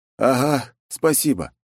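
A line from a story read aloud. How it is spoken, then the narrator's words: Exhaling. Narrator (Russian): выдохнул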